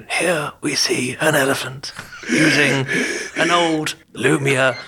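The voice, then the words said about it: Nature documentary narrator voice. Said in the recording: “my Rafe Attenborough impression”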